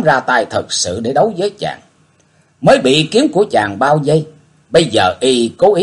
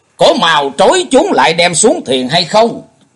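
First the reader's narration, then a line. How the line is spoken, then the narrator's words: Crowd shouting in unison. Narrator (Vietnamese): bọn đệ tử của các môn phái mới đồng thanh quát tháo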